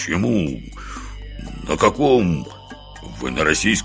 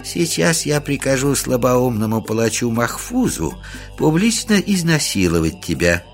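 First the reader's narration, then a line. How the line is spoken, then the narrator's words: Gentle old man's voice. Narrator (Russian): все так же ласково продолжал старичок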